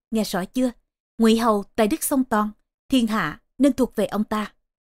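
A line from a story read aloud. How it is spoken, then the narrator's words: Whispering. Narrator (Vietnamese): thi thăm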